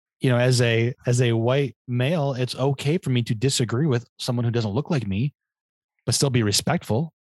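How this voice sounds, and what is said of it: Slightly crackly voice. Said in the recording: “I was singing very loudly in my car earlier because I was so angry. So my voice is a little bit crackly.”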